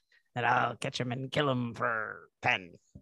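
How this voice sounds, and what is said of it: Gruff piratey Quint impression. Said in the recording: “You sound more piratey than Quint. ... It's a hard accent.”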